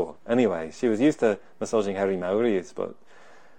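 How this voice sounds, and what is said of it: Usual voice. Nothing is said of it.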